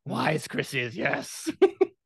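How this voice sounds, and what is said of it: Yoda character voice impression. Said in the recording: “My Yoda impression is not very good.”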